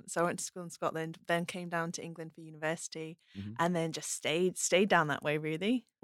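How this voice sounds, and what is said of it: Mixed British accent. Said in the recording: “I've got a bit of a mongrel accent.”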